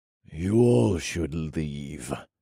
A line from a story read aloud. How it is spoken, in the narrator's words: I said through gritted teeth